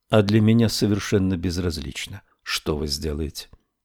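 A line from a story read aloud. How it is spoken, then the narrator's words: Calm reply. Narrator (Russian): спокойно ответила Мэри Лу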